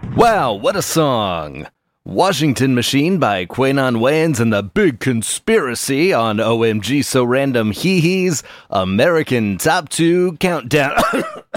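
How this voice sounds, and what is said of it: Over-the-top radio host voice. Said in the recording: “I can't do that voice. It's too much ... one of those radio guys”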